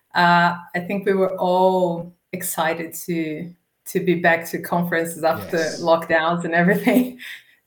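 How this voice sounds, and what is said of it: Brazilian-accented English. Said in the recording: “you've got a bit of an accent... I'm from Brazil”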